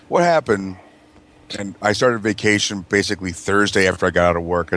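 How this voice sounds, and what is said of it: Hoarse, strained voice. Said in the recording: “I was screaming at that stupid fucking show, so that's my voice is scragged.”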